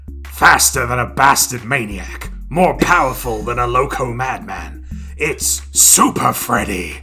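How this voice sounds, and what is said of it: Strained raspy horror-villain voice. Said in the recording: “do a Freddy Krueger voice... I'm probably going to shred my vocal cords in the process”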